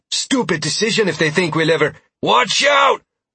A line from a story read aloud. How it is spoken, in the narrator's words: Roland yelled